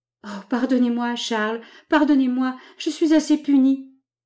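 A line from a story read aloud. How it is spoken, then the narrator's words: Bursting into sobs. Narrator (French): elle éclata en sanglots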